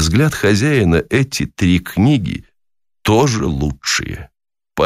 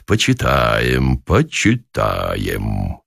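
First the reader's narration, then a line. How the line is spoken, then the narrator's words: Muttering. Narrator (Russian): гость бормочет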